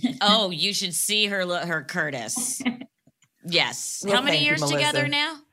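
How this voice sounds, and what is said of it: Usual voice. Nothing is said of it.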